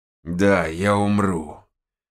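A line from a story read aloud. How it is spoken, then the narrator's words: Shaman, through gritted teeth. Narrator (Russian): процедил шаман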